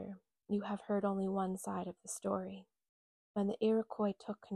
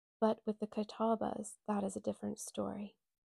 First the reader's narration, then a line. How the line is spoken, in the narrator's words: He sighed